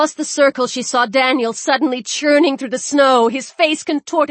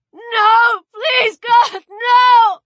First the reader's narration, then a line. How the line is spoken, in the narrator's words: shrieked